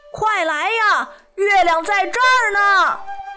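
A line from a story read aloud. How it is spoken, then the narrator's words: Joyful shout. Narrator (Chinese): 高兴地大声喊道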